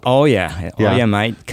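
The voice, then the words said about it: Put-on Australian accent. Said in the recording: “what happened to the accent? ... Comes back when I talk to Aussies, you know, start talking like this.”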